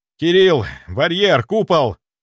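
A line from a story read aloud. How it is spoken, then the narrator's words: Shouted. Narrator (Russian): прокричал я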